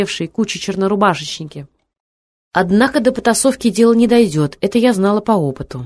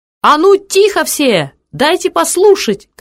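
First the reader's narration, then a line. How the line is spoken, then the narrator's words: Shout. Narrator (Russian): крикнула и я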